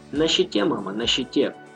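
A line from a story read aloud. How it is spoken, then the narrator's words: Quiet. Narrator (Russian): тихо произнес Влад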